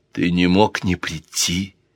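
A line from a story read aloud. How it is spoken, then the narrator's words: Whisper. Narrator (Russian): прошептала она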